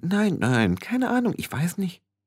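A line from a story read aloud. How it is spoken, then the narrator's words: Several voices murmuring. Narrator (German): Mehrere Stimmen murmelten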